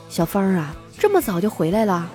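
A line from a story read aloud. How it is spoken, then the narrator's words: Calm soft voice. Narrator (Chinese): 我并没有慌张，轻声的对我妈说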